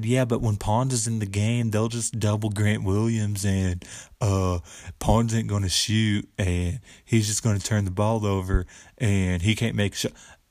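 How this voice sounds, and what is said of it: Dumb redneck put-on voice. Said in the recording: “gave a dumb redneck voice”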